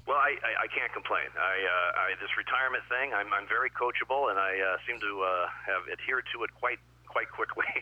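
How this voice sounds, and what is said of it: Great radio voice. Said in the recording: “you really do have the great radio voice”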